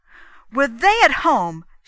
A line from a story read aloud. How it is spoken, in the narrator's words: she cried